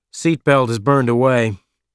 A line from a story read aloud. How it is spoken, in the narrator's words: Kolek said